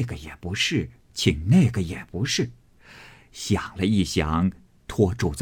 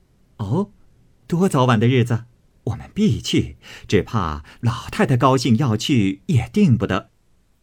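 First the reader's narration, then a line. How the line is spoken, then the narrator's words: Laughing. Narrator (Chinese): 李纨、凤姐儿都笑道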